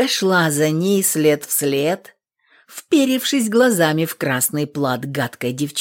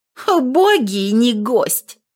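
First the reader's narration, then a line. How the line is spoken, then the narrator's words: Snort. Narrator (Russian): фыркнула воеводина дочка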